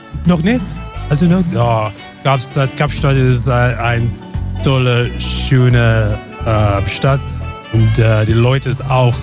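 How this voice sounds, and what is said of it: Slight foreign accent. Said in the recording (German): “Der hat so einen leichten Dialekt.”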